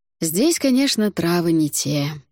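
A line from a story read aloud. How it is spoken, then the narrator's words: Sighed. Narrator (Russian): вздохнул Альтар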